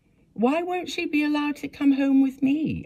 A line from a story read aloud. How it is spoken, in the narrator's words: cried